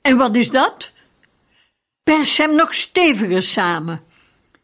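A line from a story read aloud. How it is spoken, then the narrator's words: Grandfather calling out. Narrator (Dutch): grootvader … riep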